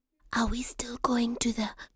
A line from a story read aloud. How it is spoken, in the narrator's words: Shama whispered